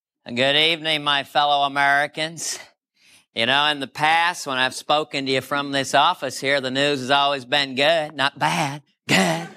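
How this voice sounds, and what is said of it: George H.W. Bush impression. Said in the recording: “his impression of George H.W. Bush”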